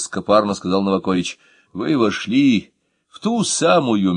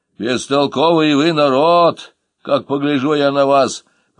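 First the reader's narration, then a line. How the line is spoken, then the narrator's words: Grumbling. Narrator (Russian): проворчала Анна Матвеевна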